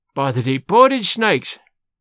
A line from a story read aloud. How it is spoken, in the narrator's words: he exclaimed